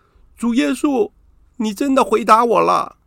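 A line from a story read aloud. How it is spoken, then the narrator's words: Sobbing loudly, shouting. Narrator (Chinese): 放声大哭，大声喊道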